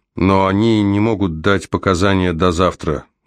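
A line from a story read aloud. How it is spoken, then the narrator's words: Plain. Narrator (Russian): говорит она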